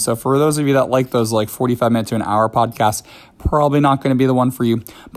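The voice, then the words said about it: Slightly scratchy, hoarse voice. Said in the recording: “my voice is still a little bit like out of it from when I was sick ... So it's a little bit scratchy if you can't tell.”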